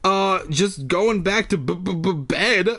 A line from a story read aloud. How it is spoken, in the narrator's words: I stammered